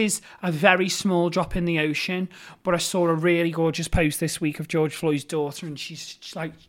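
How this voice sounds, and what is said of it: Usual voice. Nothing is said of it.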